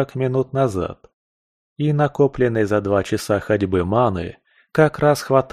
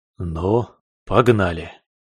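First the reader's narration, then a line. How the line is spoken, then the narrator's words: Bold, dashing chuckle. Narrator (Russian): Уже не таясь, залихватски хмыкнул я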